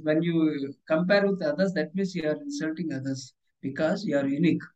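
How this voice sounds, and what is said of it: Indian-accented English. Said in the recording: “my Indian accent”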